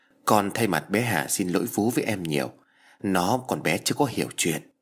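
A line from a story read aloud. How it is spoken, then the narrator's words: Slightly sad. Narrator (Vietnamese): Vi quay sang Vũ nhìn khẽ buồn rầu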